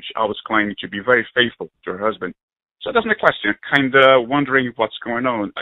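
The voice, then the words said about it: Non-native English accent. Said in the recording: “I hope it could pick up my accent. I wasn't born here”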